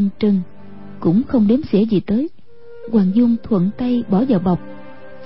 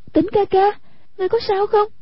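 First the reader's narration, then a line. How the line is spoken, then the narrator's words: Frightened cry. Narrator (Vietnamese): Hoàng Dung vô cùng ngờ sợ, kêu lên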